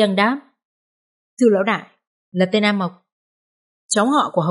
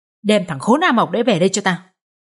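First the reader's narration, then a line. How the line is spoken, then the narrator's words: Old man roaring. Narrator (Vietnamese): Lão Wong gầm lên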